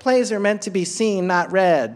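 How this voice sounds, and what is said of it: Put-on annoying voice. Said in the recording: “In that annoying voice? ... Yes, and I always do it in that voice.”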